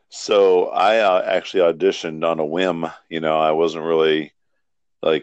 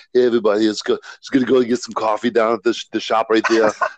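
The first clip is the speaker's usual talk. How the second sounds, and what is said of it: Imitates another person's voice. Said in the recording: “I sound like Arnold ... you do the voice ... I know that was my thing, the voice”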